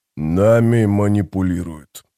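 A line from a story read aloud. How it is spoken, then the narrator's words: Grumbling. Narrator (Russian): проворчал он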